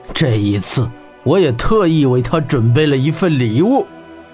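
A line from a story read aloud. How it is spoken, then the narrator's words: Sneering cold laugh. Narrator (Chinese): 玄火圣王冷笑道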